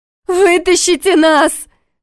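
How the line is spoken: Shouting. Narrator (Russian): кричала она, отбиваясь от Войтыха

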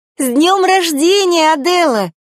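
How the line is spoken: Exclamation. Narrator (Russian): воскликнула Ариэль

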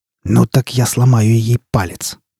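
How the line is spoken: Hiss. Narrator (Russian): прошипел он

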